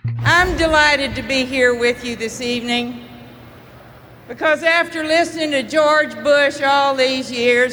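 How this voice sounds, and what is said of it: Texas accent. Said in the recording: “what a real Texas accent sounds like”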